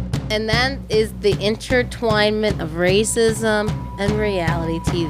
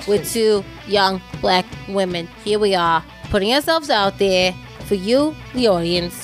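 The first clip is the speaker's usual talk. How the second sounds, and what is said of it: Put-on accent. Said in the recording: “Wow, what an accent.”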